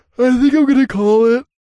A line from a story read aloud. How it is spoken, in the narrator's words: yawned